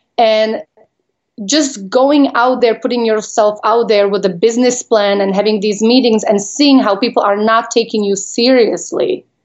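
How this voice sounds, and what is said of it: Non-native accent. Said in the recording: “I still have an accent. Obviously, you don't lose it when you come here already as an adult.”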